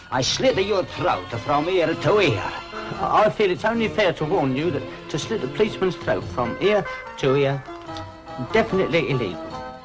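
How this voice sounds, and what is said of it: Put-on Italian accent. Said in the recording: “He's doing an Italian accent.”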